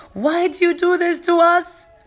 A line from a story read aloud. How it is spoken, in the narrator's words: My daughter Rania, who is 5, started shouting at the smuggler